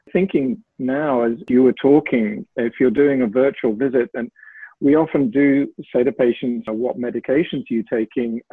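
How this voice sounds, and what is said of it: British English accent. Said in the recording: “you'll tell from my accent perhaps that I trained in the UK and worked there a lot”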